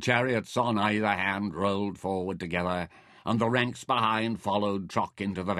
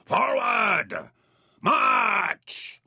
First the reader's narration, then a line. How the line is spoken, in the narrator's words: shouted